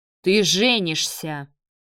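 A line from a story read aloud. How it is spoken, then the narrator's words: Thundering man's voice. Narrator (Russian): прогремел мужчина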